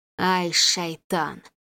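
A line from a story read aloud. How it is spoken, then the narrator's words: Hissed. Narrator (Russian): прошипел Ахмед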